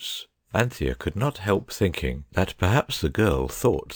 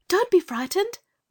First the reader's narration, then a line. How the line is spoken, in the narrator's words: Anthea cried